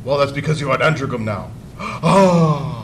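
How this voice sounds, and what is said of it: Poor hammy Patrick Troughton impression. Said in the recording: “Troughton could do kind of maximal hamming it up ... That was a terrible impression.”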